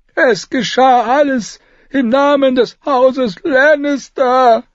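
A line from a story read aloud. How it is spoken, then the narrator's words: Master wailing, lamenting. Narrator (German): jammerte der Meister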